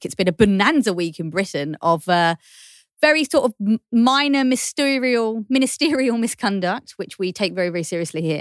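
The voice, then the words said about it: Dreamy British accent. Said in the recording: “dreamy accent, she's a Brit”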